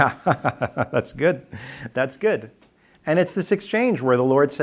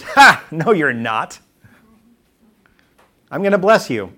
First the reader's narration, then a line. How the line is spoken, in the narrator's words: Her laugh is